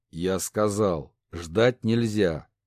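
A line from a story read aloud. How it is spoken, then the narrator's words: Angry growl. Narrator (Russian): рыкнул на бастарда отца, незаконно рожденного брата, Кларк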